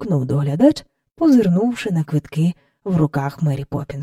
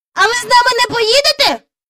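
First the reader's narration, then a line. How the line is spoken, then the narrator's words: Shouted. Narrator (Ukrainian): крикнув Майкл до Мері Поппінс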